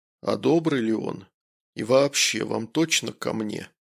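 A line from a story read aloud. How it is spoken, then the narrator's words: Suspicious tone. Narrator (Russian): Врач подозрительным тоном произнес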